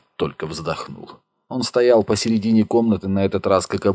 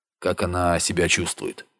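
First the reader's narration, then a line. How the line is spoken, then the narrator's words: Quiet question. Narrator (Russian): тихо спросил Ярлов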